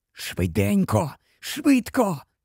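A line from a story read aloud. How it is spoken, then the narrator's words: Whisper. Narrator (Ukrainian): прошепотів Гаррі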